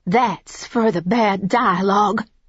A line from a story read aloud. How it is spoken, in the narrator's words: I said, my voice trembling